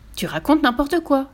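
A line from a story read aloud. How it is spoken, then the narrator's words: Exclaiming together. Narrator (French): s'exclamèrent Tommy et Annika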